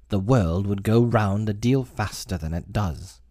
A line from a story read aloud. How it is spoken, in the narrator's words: the Duchess said in a hoarse growl